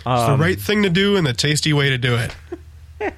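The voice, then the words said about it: Wilford Brimley impression. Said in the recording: “Wilford Brimley clones trying to sell me diabetes supplies”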